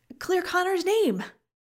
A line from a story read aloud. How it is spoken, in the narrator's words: Olivan said excitedly